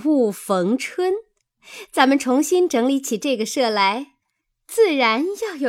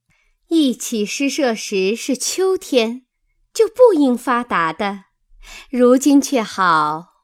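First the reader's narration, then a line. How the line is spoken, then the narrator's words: Laughing. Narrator (Chinese): 湘云笑道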